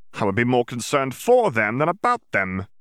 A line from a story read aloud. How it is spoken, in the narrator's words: he snorted